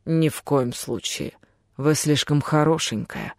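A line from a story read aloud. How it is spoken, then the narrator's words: Undertone. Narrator (Russian): вполголоса добавил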